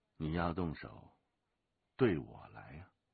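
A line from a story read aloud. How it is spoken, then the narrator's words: Cold. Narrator (Chinese): 龙八冷冷地说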